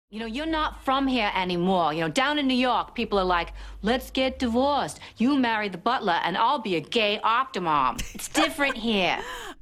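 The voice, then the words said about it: Very bad put-on Boston accent. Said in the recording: “the worst Boston accent of all time, which is Julianne Moore in 30 Rock. Who literally sounds like she was kicked in the head by a horse.”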